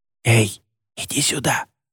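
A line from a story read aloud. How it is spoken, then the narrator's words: Hiss. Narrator (Russian): прошипел Едриэль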